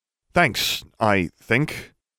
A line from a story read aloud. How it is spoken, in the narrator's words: said nervously